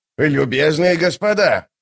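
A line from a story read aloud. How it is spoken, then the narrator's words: Shouting out. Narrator (Russian): выкрикнул Круп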